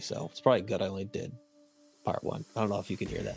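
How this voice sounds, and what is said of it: Strained, failing voice. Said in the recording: “my shitty ass voice ... I'm losing my voice literally”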